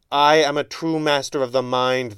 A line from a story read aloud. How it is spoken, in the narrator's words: the younger man howled